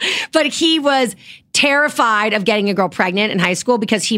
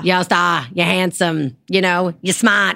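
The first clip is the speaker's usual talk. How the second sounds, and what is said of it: Put-on Boston accent. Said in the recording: “Boston accent”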